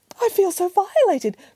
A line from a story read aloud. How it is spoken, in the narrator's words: cried the mother bear